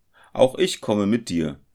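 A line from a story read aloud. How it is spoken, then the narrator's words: Called out, student. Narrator (German): rief der Student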